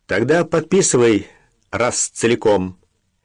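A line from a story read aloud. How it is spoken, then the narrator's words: Sudden rough yelling. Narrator (Russian): неожиданно грубо заорал гладколицый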